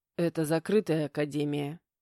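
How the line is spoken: Patient reminder. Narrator (Russian): терпеливо напомнил Матвей

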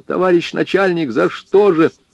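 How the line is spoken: Shouting. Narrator (Russian): закричал

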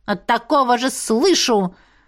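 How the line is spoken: Insolent snap. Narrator (Russian): Огрызнулся дерзкий нахал

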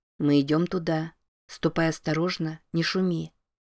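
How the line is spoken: Quiet. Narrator (Russian): негромко произнес

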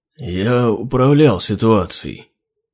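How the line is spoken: Listless mumble. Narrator (Russian): вяло пробормотал Хродрунг

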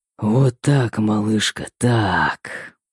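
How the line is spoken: Hoarse, unrecognizable whisper. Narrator (Russian): хриплый шепот, изменившийся до неузнаваемости

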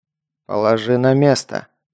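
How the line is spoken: Quiet but firm. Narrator (Russian): негромко, но твердо сказал майор

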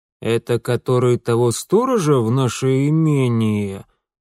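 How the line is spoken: Knowing drawl. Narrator (Russian): понимающе протянул отец

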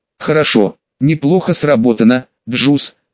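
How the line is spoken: Plain. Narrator (Russian): сказала Ронда

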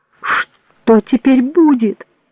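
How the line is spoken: Sobbing. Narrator (Russian): всхлипнул Джованни

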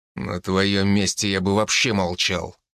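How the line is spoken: Growled. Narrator (Russian): рыкнул

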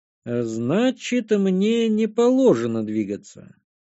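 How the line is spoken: Drawling. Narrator (Russian): протянул я

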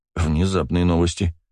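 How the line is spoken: Snorting remark. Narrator (Russian): хмыкнул

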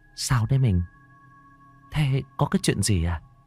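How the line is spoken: Soft question. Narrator (Vietnamese): Bà vợ lão khẽ hỏi

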